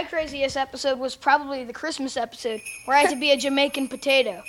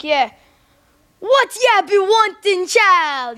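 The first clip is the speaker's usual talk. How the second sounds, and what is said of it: Put-on Jamaican accent. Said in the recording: “You do a Jamaican accent and everything. ... Can you do one right now?”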